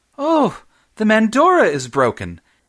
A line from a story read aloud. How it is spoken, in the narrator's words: exclaimed